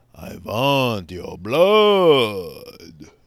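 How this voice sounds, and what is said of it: Bad Count Dracula impression. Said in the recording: “Count Dracula ... That was a bad impression”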